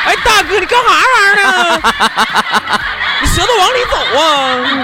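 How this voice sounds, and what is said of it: Put-on heavy Northeastern Chinese accent. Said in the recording (Chinese): “你是走东北来的，你说话有点像赵本山啊...那种口音很重的地方”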